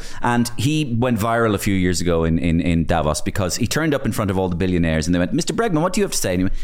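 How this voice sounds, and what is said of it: Usual voice. Nothing is said of it.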